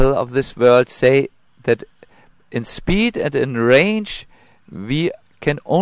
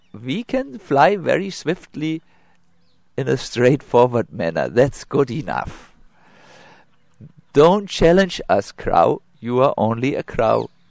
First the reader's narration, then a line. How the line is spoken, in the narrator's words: The swans laughed and said